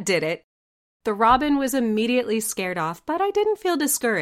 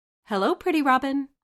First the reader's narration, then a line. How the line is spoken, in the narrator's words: I was feeling a bit silly and whimsical, so I called out softly